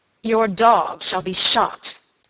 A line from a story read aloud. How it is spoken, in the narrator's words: answered Sir Michael angrily